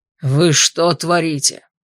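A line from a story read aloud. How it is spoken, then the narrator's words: Roar. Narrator (Russian): взревел ректор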